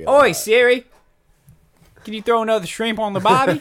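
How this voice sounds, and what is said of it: Put-on Australian accent. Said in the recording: “I talk to Siri in Australian accent.”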